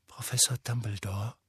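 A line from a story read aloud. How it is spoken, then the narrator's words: Very quiet, careful. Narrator (German): sagte Harry sehr leise, denn Dumbledore, der immer noch auf das Denkarium starrte, schien völlig in Gedanken verloren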